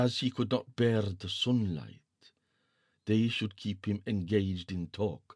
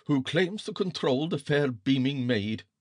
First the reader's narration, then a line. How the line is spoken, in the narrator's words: said Allwise the dwarf scornfully